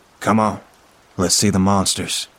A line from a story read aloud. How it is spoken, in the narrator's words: says Peter